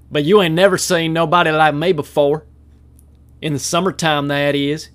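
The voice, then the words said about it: Put-on Southern accent. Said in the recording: “speaking in a southern accent. It's so easy and fluid”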